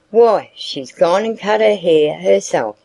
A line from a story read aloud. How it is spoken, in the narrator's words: said Mr